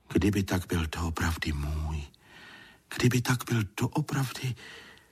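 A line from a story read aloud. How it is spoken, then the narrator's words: Whispering to himself. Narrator (Czech): Stulík šeptal si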